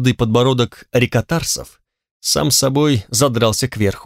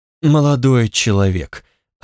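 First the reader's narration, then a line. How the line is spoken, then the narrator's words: Sighing. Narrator (Russian): оценщик вздохнул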